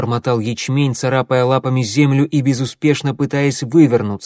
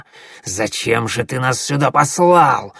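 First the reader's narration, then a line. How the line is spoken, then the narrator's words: Hissing. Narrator (Russian): шипел коготь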